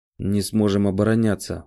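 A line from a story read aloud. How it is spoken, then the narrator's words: Grim statement. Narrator (Russian): мрачно говорю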